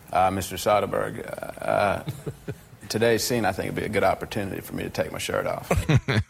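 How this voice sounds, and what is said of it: Imitates another person's voice. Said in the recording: “Imitating McConaughey.”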